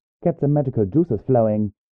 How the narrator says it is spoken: she said, her voice muffled

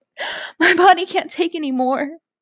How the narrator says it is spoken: I moaned

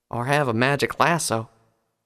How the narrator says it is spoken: Applejack mumbled

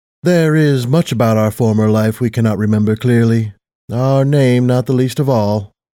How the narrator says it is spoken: Platinum Hayes said in an almost wistful tone

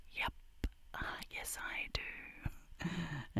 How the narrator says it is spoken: I just whisper back

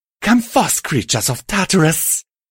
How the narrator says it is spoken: Cruelty shrieked

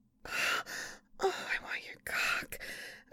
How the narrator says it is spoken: whispered

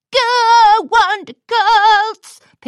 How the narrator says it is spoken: Pinkie Pie yelled as she leapt across the room

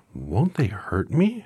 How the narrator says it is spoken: asked the girl anxiously

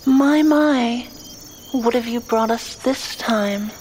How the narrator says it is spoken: says the slender one in the middle, with a feminine voice, her tone dripping with malevolence

